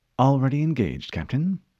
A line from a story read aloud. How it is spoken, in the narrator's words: Cortana said calmly